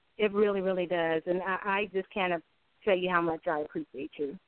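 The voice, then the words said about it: Choked-up, emotional voice. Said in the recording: “get choked up thinking about it now”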